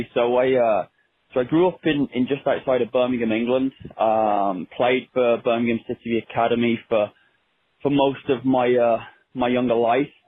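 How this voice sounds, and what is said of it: English accent. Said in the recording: “we love the accent”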